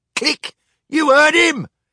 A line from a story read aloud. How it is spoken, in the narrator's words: shouted First Mate Mainspring